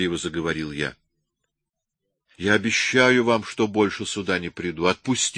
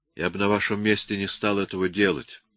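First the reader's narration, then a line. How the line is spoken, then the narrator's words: Calm. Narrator (Russian): спокойно заметил я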